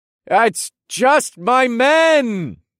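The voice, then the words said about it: Loud, calling out. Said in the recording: “I called out in a loud voice”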